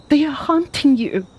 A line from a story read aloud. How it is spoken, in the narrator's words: she cried